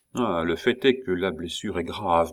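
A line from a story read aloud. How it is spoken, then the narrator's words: Murmured. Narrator (French): murmura-t-il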